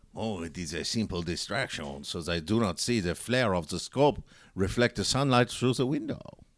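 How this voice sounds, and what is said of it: Put-on German accent. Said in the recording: “that was sounding very German. ... Why are you so German now?”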